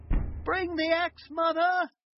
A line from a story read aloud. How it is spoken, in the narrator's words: shouted Jack